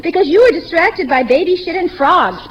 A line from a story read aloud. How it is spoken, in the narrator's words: Paula yelled